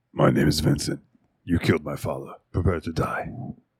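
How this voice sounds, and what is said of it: Dark, deep character voice. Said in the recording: “Vincent has that dark, you know, my name is Vincent.”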